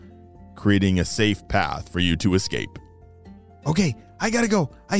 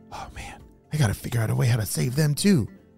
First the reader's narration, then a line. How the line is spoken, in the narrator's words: Phoenix whispered to himself